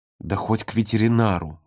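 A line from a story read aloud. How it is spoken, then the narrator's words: Muttered. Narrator (Russian): буркнул Володя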